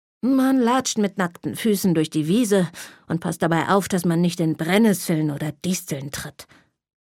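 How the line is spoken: Grumpy grandpa answering. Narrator (German): antwortete mein Opa brummig

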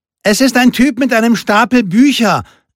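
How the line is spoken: Calling into the hut. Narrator (German): rief Lupe in die Hütte

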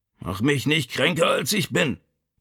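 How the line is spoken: Growled. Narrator (German): knurrte Vito

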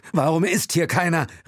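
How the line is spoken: Calling out. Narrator (German): rief Will

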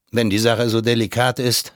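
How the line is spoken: Plain. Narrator (German): sagte ich

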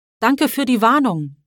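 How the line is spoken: Called out. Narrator (German): ruft er

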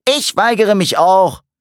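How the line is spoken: Called out. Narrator (German): rief Michael

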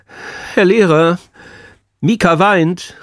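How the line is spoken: Sudden call. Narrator (German): rief Timo plötzlich

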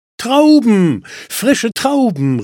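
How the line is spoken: Woman calling out. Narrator (German): rief die Frau

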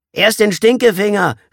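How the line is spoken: Boy calling out. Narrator (German): rief der picklige Junge

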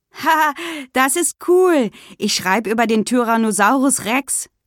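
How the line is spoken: Calling. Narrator (German): rief Günther

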